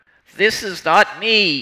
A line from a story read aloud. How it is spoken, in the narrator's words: he shouted